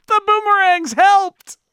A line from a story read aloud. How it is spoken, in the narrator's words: From the hallway, Cool Cat shouts